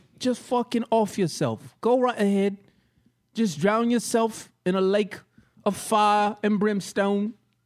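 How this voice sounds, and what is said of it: Bad put-on accent. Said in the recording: “It's just as bad as this accent I'm doing right now.”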